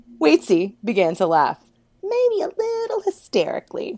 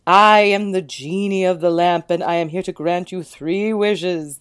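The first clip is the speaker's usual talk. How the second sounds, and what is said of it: Odd rich dark purring voice. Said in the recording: “in an odd voice, a rich, dark purr”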